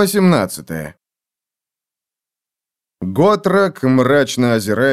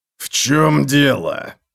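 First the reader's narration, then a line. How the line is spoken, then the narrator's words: Menacing growl. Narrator (Russian): угрожающе прорычал он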